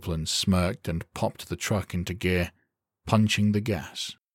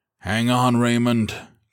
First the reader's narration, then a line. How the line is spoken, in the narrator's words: Copeland bellowed